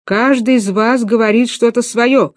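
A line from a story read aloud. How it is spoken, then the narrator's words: Shouted. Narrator (Russian): кричал директор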